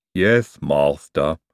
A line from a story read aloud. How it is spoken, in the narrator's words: said Igor gloomily